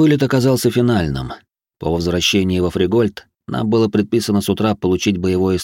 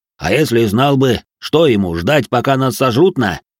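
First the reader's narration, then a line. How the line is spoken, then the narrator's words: Deep booming bass. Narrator (Russian): пробасил грохот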